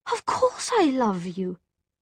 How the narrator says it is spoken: Charlotte cried

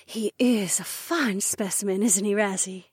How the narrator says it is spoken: Emma breathed

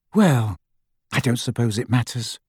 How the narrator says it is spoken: sighed Hermione

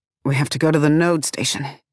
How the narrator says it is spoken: blurts in a rusty voice

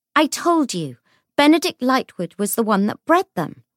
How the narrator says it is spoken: Lucy said crossly

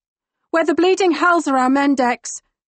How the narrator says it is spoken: I shout over the cacophony

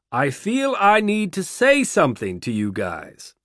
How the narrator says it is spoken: raising his voice over the audience

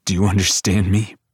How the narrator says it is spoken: He growls

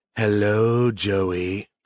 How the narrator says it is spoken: said in a sultry voice

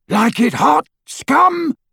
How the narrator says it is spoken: roared Crabbe as he ran

